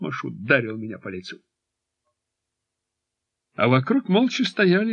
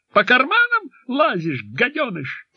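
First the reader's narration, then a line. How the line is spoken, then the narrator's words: Sudden fake shout. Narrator (Russian): неожиданно фальшиво выкрикнул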